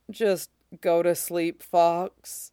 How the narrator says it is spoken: said wearily

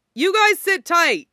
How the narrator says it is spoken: he yelled to Bucky and Steve

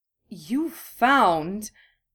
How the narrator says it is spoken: Dorian gasps

